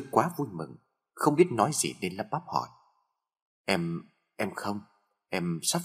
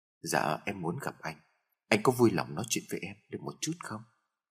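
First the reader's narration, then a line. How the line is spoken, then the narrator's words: Soft laugh. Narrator (Vietnamese): Hương khẽ cười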